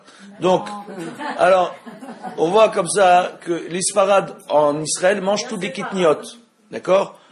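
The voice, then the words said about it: Sephardic-accented French. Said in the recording (French): “vous sentez bien à mon accent que je suis séfarade”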